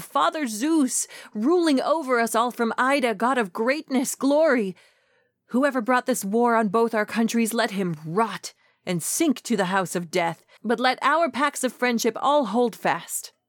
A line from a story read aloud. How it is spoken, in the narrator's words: some Trojan or Achaean pleading